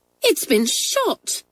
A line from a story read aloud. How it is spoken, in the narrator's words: cried Kathleen indignantly